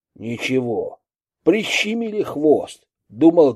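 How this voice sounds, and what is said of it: Usual voice. Nothing is said of it.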